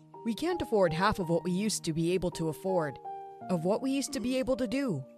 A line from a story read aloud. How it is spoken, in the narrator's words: Dad said sadly